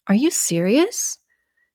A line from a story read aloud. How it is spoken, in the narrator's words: His voice rose at the end of the question